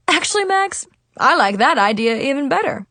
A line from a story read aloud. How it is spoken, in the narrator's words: Principal Winston chuckled